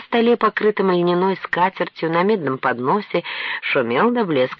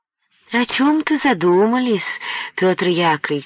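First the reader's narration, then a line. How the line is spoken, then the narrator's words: Honeyed drawling voice. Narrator (Russian): медовым голоском тянула Марфа Даниловна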